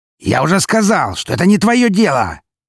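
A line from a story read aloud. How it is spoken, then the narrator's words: Bark. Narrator (Russian): рявкнул он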